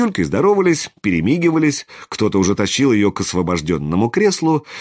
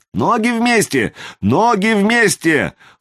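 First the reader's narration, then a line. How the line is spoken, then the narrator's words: Yelling in chorus. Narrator (Russian): хором заорали со старта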